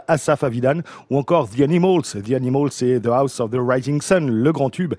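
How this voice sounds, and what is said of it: English names with good English accent. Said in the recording (French): “Bel accent”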